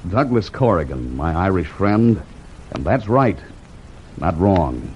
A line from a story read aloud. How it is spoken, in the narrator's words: Slowly and with emphasis, the smile spreading again over his face, he answered